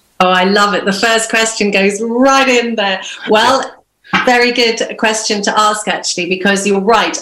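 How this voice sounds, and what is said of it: Non-Irish, mid-Irish Sea accent. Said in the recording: “you don't have an Irish accent ... I've got what I call a kind of a mid-Irish Sea accent”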